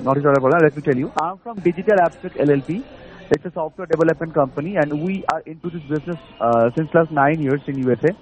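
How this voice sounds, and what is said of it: Indian English accent. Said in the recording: “by my voice and my accent, as you also know that I'm an Indian”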